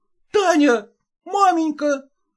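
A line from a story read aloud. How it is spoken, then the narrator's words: Joyful. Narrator (Russian): радостно произнес он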